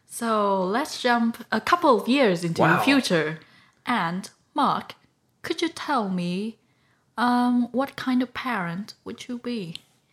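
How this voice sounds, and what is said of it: Put-on British accent. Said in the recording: “you have a British accent”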